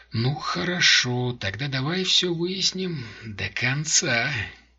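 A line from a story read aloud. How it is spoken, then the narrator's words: Sigh, pause, then speech. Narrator (Russian): Он вздохнул, помолчал и сказал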